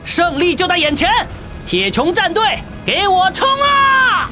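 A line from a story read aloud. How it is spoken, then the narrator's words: Loud shout. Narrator (Chinese): 高声喝道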